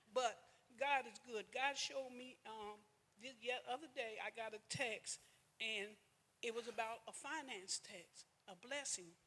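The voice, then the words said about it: Nervous shaking voice. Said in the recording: “Y'all can tell right now how my voice is shaking.”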